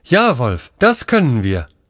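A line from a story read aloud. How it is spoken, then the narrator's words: Plain. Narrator (German): antwortete Aljoscha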